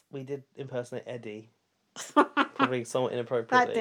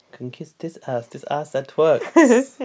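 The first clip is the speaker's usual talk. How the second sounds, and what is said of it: Imitates another person's voice. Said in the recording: “your Dre impression”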